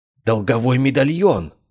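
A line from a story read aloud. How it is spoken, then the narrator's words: Exclamation. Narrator (Russian): воскликнул Кайден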